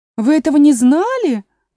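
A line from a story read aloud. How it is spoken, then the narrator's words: Exclaiming. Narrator (Russian): воскликнула другая Маргаритка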